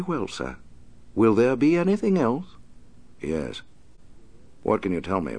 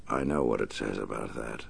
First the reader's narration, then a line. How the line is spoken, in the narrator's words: the Batman said softly